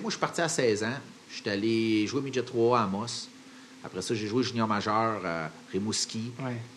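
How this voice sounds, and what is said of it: Québécois French accent. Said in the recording (French): “accent québécois est vraiment bien revenu”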